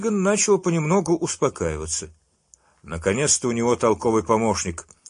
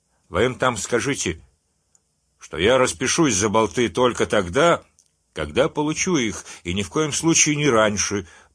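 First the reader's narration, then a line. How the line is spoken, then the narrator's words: Booming drone. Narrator (Russian): прогудел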